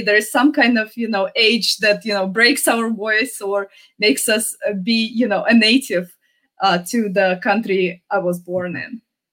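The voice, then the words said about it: Non-native accented English. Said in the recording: “I still get to keep my accent, because I did come here when I was a teenager”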